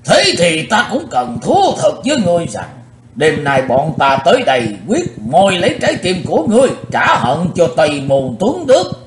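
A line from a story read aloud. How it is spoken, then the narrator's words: Loud angry shout. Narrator (Vietnamese): Lão râu ria sầm soạn quát lớn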